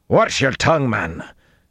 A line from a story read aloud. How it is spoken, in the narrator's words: Gregorin snapped